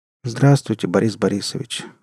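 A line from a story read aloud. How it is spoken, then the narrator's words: Tired. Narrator (Russian): устало сказал Леопольд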